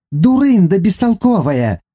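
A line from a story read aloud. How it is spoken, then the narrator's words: Shrill reply. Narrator (Russian): визгливо отозвалась Наама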